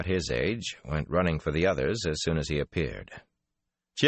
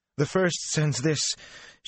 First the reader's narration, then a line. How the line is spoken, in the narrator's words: she panted